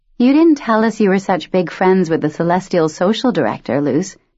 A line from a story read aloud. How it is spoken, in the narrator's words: Jasmine said